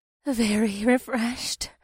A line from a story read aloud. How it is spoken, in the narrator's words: the warrior princess said in a voice that was slightly husky